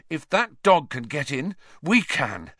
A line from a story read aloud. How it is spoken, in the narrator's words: Harry panted